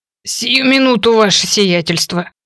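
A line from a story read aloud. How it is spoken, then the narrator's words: Wheezed. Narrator (Russian): прохрипел Матти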